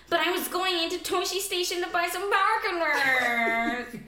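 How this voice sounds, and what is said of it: Whiny imitation of a character. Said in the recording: “how whiny Luke is”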